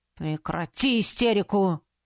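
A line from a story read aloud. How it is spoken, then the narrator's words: Bark. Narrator (Russian): рявкнул магистр Шарес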